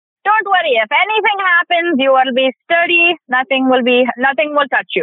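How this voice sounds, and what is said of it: Fluent put-on Indian accent. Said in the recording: “you went into a very nice indian accent there ... a, beautiful accent like you just threw in there but boy you did that you did that fluidly”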